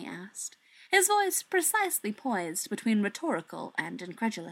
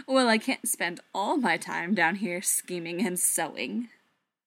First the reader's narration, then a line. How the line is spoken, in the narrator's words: Loki said, chuckling